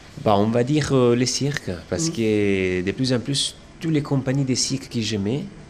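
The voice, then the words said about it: Slight foreign accent. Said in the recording (French): “on entend que tu as un petit accent”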